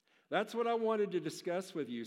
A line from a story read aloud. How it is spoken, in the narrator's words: said the doctor